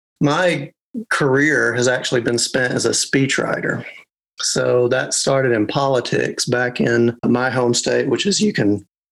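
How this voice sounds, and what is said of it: Arkansas Southern US accent. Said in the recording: “Arkansas ... the accent, which I find very, very pleasant”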